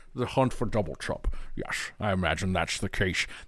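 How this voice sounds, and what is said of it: Bad impression of a film actor's voice. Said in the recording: “That was my really bad uh, Sean Connery impersonation.”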